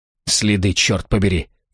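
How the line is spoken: Snorting. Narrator (Russian): фыркнул Шпильман

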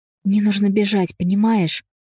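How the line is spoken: Shouted whisper. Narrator (Russian): Я кричала шепотом

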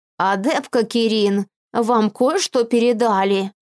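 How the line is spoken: Creaky voice, crooked smirk. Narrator (Russian): выдавила из себя кривоватую ухмылку, проскрипев

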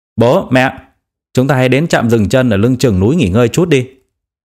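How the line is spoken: Loud speaking. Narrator (Vietnamese): anh ta lớn tiếng nói

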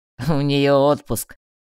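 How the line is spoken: Laughing. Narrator (Russian): рассмеялся Ларох

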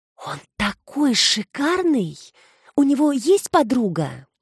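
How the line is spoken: Loud whisper. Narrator (Russian): Эмма громко зашептала

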